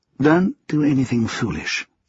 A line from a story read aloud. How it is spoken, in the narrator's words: Colin said quietly